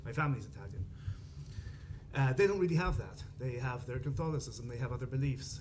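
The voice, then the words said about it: Irish Dublin accent. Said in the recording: “where I come from Dublin, you can hear that from my accent”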